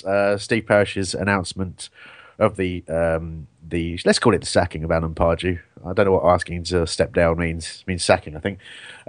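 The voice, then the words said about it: Ill-sounding voice. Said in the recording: “As you can probably tell from my voice... I am also ill... if my voice goes or I have a coughing fit”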